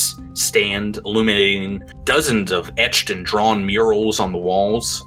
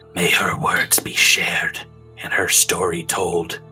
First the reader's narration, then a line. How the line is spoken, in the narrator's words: you hear her intoning, like, under her breath